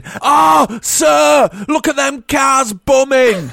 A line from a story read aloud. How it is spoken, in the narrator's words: shouting